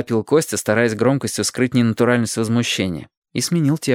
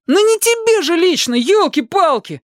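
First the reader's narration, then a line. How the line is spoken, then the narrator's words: Exasperated howl. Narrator (Russian): Опять взвыл Костя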